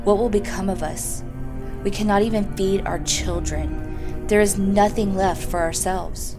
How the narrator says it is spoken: he sighed heavily, and he said to his wife

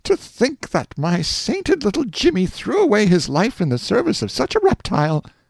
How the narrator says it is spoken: their mother, who burst into tears and exclaimed

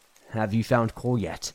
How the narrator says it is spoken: Trina asked

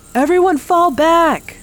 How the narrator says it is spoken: Maria shouted

